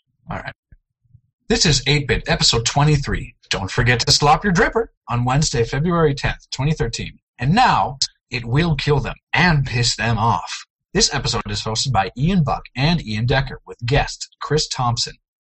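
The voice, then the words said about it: Announcer-style radio voice. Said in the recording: “in my best radio voice. ... Very well done.”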